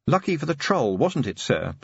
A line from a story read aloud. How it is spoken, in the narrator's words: said Angua sharply